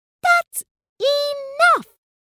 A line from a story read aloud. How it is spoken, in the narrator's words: looked up and roared